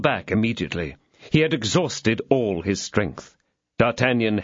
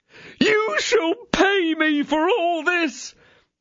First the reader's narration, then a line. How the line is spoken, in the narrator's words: cried the exasperated landlord